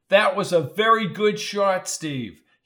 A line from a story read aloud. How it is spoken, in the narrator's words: he yelled